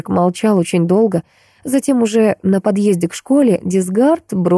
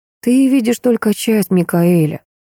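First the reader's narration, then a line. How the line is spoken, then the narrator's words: Weary speech. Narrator (Russian): устало произнес Хосе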